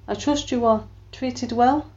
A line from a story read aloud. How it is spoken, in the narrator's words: gave a sharp laugh